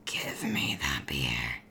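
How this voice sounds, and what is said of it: Raspy, smoker-like angry monster voice. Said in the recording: “do your werewolf angry voice? ... Oh my god, that was so disturbing. That was like if you'd just taken up smoking and then it's 6 years later.”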